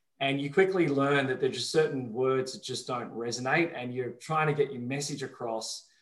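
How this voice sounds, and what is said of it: Softened Australian accent. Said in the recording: “it's not super strong Melbourne, right? ... it's watered down a little bit ... a beautiful Australian accent ... an accent that's changed”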